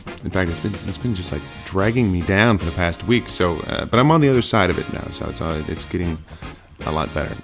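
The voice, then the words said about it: Congested voice from a cold. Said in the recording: “If you can't tell, I have a bit of a cold”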